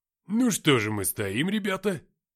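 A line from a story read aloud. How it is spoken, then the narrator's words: Exclaiming. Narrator (Russian): воскликнула копия Артема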